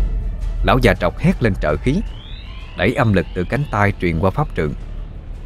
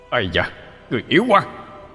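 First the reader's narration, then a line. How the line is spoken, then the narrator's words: Alarmed, restrained angry shout. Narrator (Vietnamese): Mã Linh Nhi hốt hoảng, thu âm lực lại phần lớn, giận dữ quát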